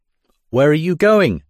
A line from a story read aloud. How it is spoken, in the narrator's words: shout the peasants